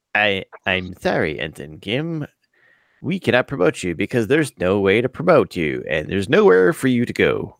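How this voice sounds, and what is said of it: Poor impression of a character's voice. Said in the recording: “That was my worst Janeway impression.”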